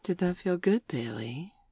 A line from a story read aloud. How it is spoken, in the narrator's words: She purred